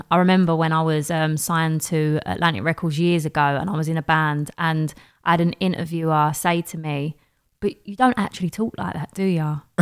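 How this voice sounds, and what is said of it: East London Cockney accent. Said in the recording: “she just took to doing everything in my accent ... she was legitimately like Cockney for the whole session ... The East London accent ... this is my accent”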